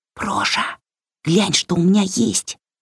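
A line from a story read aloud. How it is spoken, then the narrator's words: Whisper. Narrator (Russian): шепнула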